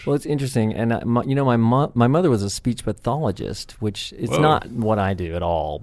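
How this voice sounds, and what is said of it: Southern US accent. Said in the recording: “there's a little Southern accent in there ... that came out even stronger than I thought.”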